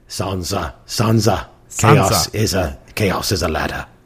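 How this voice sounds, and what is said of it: Littlefinger character impression. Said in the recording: “I've heard your Littlefinger impression.”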